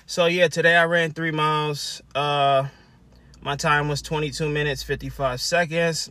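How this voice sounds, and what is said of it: Slightly out of breath. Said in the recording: “I'm a little out of breath. Just finished running.”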